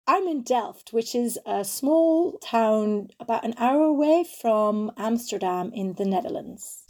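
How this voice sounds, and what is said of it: Non-American accent. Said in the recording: “I could tell by your accent that you're not in the United States.”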